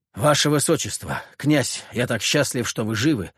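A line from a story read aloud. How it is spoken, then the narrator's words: Breathless exclamation. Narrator (Russian): выдохнул Леонид Багратион-старший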